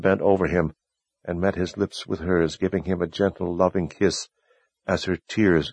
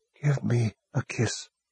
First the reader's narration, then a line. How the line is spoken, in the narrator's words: Warren whispered